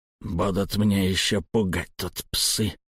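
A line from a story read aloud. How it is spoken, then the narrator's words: Grumbled. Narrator (Russian): проворчал Невилл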